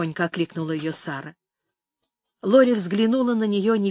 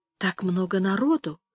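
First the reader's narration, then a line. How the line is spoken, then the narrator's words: Timid, childlike voice. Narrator (Russian): ее голос прозвучал по-детски робко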